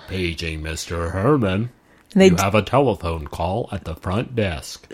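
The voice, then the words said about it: Robotic dubbed bellhop voice impression. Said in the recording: “They like dub over his voice with this like robotic. ... It's a really good impression”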